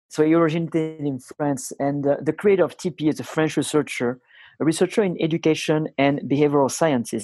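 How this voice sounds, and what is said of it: Thick foreign accent. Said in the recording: “my accent is too thick”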